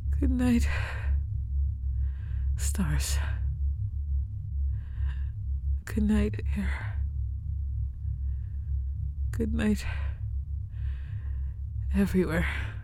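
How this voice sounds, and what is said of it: Whispering. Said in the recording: “I guess I'm the old lady whispering now, aren't I?”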